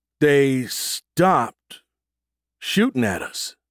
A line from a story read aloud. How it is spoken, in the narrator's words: Bilby said slowly